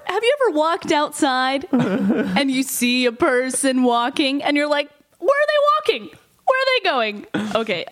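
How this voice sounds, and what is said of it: Bad Jerry Seinfeld impression. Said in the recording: “an impression of Jerry Seinfeld ... I'm really bad ... adorably horrible ... That's really bad”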